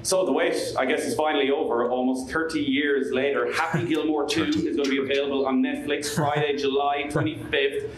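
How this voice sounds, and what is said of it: Irish accent. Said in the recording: “Great accent. ... you should be good at the accent now, because I'm a bit worried you might have had your fill of Irish people”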